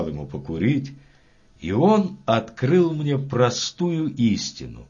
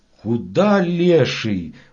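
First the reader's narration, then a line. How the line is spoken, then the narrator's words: Two shouting in unison. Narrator (Russian): в один голос закричали мы оба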